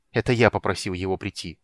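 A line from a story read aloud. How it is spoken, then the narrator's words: Irritated reply. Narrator (Russian): раздраженно отозвался Танис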